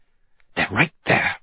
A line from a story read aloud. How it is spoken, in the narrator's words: I hiss